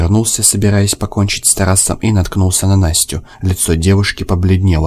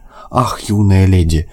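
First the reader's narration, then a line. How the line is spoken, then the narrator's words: Sigh, wry smile. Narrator (Russian): вздохнул Высокий с кривой улыбкой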